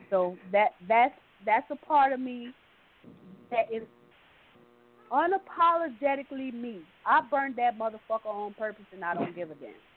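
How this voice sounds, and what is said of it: New Orleans accent. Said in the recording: “I love when your New Orleans come out because, you know, I love the accent.”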